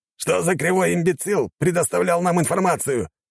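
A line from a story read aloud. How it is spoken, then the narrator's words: Growling. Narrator (Russian): зарычал адмирал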